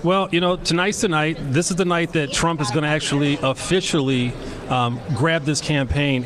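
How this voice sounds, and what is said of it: Silky smooth radio voice. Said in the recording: “did I just get a lot smoother right there? ... a way better radio voice ... That's the silky, smooth.”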